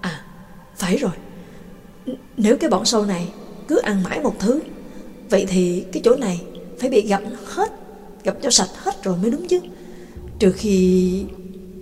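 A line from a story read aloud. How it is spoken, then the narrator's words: Muttering. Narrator (Vietnamese): rồi lẩm bẩm nói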